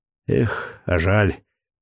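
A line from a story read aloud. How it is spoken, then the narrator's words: Regretful sigh. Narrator (Russian): с некоторым сожалением вздохнул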